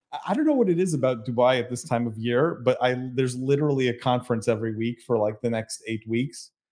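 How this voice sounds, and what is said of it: Slightly hoarse voice. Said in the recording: “I sound a little hoarse”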